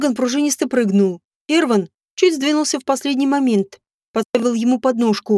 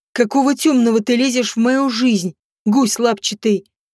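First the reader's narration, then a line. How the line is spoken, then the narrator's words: Hissed. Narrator (Russian): Поднимаясь, прошипел Морган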